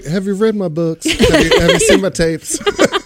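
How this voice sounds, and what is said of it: Imitates another person's voice. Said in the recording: “doing an impression ... calling as Dr. Phil”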